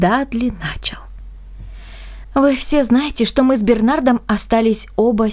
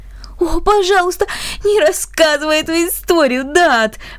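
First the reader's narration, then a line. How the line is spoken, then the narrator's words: Embarrassed pleading. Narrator (Russian): взмолился Бернард с покрасневшими щеками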